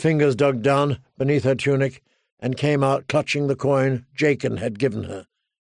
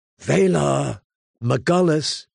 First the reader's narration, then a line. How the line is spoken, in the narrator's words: she whispered as he died